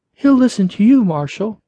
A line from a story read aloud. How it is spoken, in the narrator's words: said desperately